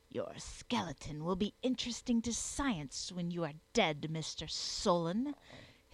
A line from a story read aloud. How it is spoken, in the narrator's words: hissed the wondersmith